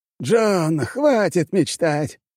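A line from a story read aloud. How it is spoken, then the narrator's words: Abrupt, giggling interruption. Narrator (Russian): внезапно прервал меня дед, с хихиканием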